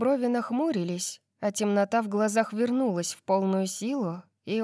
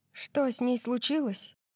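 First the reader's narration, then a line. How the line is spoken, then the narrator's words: Soft question. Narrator (Russian): мягко спросила я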